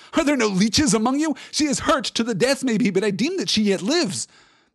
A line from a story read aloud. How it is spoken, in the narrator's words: he cried